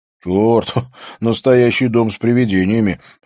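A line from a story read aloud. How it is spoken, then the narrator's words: Laughing. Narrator (Russian): засмеялся Бьорн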